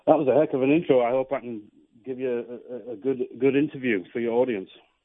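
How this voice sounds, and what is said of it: Toned-down British accent. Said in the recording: “you're not my first Brit ... I know how to tone down that British accent”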